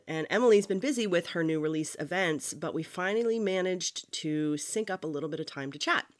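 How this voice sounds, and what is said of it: Slightly sick-sounding voice. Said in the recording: “I've been sick. You can actually still hear it in my voice a little bit.”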